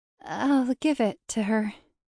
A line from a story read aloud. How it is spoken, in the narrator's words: she said in a strangled voice